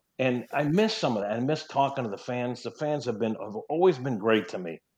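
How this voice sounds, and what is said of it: Slight New York accent. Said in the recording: “I'm a New Yorker. I still have a little New York twang.”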